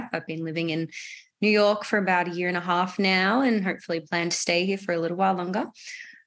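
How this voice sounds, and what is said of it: Australian accent. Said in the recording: “I'm glad you can understand the accent ... I'm from Melbourne, Australia”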